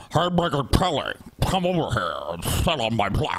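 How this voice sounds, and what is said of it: Imitated voice for Roger Ailes. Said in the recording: “Doing the Brett voice for Roger Ailes. ... He just sounds like he sounds like Brett.”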